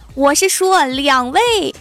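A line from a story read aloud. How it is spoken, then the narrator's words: Monster's loud shout. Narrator (Chinese): 怪兽大喊一声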